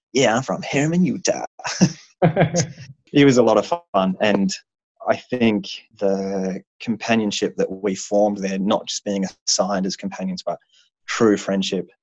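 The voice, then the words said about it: Australian accent. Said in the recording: “as an Australian in America ... such a cool accent”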